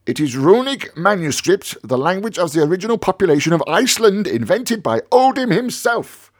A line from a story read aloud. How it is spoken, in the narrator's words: cried my uncle, angry at my ignorance